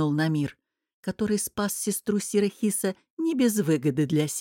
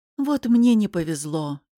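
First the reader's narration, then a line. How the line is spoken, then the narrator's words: Involuntary sigh. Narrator (Russian): сьор Аль-Хали невольно вздохнул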